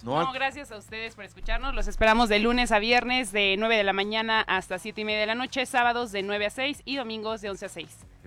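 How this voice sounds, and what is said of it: Polished radio announcer voice. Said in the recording (Spanish): “¿Tienes voz de locutora, te han dicho? ... Oye, ¿tienes voz de locutora?”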